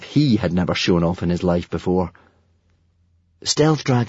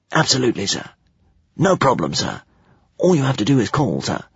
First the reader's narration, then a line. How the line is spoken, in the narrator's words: the dragon whispered back